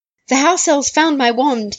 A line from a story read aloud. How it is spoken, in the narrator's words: he blurted